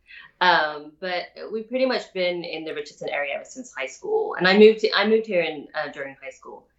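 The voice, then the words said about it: Southern British accent. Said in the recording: “I don't hear any Texan in there. There's not much of a Southern ... Southern British accent ... I get asked if I'm Australian a lot”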